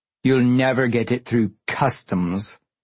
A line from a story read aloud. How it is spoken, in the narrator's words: she said, pronouncing customs with a sneer